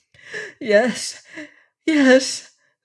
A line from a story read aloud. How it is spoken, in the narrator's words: the girl cried, shuddering